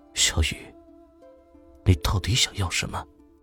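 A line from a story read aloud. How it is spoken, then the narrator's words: Low murmur to self. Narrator (Chinese): 像是自言自语的低声道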